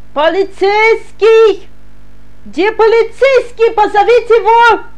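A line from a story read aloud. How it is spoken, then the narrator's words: Screaming. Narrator (Russian): Снова завопила она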